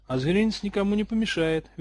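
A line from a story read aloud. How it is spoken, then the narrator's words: Cheerful. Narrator (Russian): весело ответил Гарри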